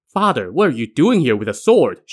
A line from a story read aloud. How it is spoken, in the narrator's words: she asked him